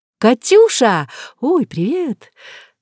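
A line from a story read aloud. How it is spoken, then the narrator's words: Joyful chirping, then quieter. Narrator (Russian): Радостно защебетав, Алиска уже тише добавила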